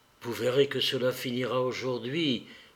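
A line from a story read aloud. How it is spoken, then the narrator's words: Low voice. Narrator (French): dit Marie Nikolaïevna à voix basse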